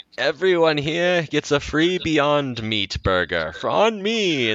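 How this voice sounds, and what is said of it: Put-on accent for a character. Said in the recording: “I don't know why I gave him an accent ... all billionaires cue an accent.”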